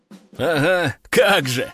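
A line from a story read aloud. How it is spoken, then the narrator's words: Group roaring laughter. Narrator (Russian): расхохотались бойцы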